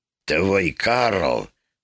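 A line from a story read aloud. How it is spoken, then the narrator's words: Hoarse whisper. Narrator (Russian): заговорил он, наконец, сиплым шепотом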